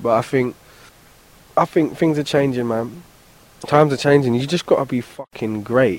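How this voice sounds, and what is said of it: British accent. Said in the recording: “British rapper ... my accent rapping”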